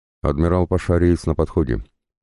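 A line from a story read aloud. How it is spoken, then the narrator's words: Quiet confirmation. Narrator (Russian): негромко подтвердил Забелин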